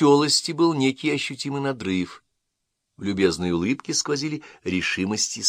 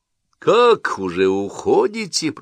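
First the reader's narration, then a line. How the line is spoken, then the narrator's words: Deep bass voice. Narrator (Russian): пробасил Уэбберли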